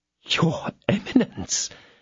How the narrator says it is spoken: again muttered Bonancieux, rolling his eyes in astonishment

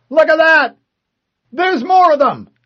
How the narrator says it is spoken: a Marine yelled

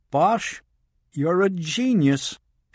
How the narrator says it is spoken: exclaimed

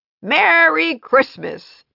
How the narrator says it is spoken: the mayor shouted

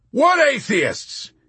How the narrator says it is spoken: He bellowed defensively, his whole manner changing in a flash to one of virtuous and belligerent denial

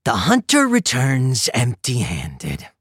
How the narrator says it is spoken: Nero sneered

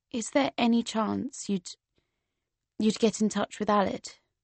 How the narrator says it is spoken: I said in a quiet voice

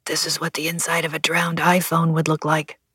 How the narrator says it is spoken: Leon murmured

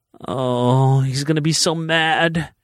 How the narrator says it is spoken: she groaned

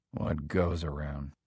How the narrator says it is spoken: he murmured

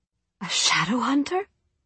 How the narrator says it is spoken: Tessa gasped

